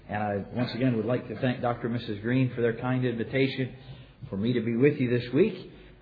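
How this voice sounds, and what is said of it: Heavy accent, voice affected by cold. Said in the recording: “I have a horrible accent that is probably difficult to understand, but also I have a bit of a cold ... my annoying accent ... a bit of an annoying cold”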